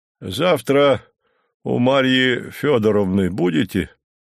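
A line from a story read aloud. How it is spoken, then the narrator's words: Deep bass voice. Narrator (Russian): пробасил Горький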